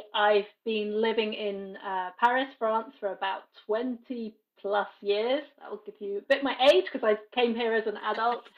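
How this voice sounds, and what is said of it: British English accent. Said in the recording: “as you can hear from my accent, I am British originally”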